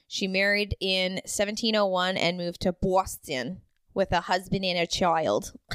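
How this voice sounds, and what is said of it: Put-on Boston accent. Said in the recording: “Enjoy that Boston accent.”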